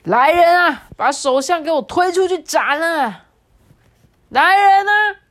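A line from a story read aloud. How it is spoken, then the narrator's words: Loud shouting. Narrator (Chinese): 喵星大帝又大声的喊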